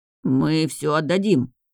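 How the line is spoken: Mutter. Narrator (Russian): пробормотал один из них

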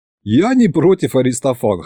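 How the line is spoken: Snorting. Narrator (Russian): хмыкнул я

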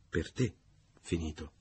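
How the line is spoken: Low voice. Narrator (Italian): disse a voce bassa

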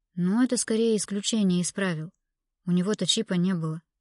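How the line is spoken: Deep sigh. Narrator (Russian): Томас глубоко вздохнул

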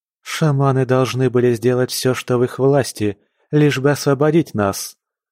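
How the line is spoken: Plain. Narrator (Russian): сказала Сали

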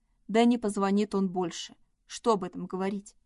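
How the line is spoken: Dry. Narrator (Russian): Сухо добавила она

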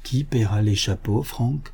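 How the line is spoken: Said quietly. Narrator (French): lui dit tout bas son cousin George

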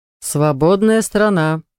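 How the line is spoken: Snort. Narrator (Russian): фыркнул он

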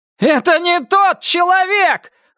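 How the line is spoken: Near-hysterical yell. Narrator (Russian): заорал Крис на грани истерики

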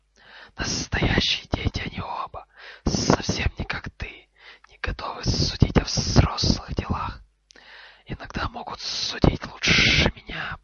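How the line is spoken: Hissed. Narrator (Russian): прошипел Гарри

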